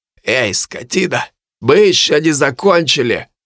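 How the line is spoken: Hoarse voice. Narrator (Russian): услышал я хриплое

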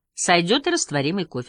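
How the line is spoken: Plain. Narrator (Russian): сказала Мартина

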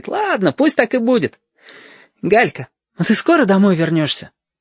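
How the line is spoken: Laughing speech. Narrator (Russian): Она сама засмеялась и говорит

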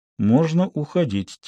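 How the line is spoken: Quiet. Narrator (Russian): тихо сказал Гектор Тарику

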